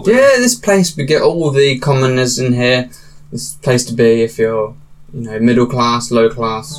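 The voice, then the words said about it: Character voice with an accent. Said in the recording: “you got the same accent as all the other people... you sound like the shopkeeper”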